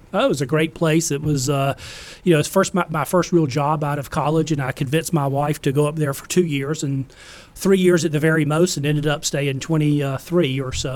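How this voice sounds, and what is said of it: South Boston accent. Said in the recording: “that Boston accent ... South Boston.”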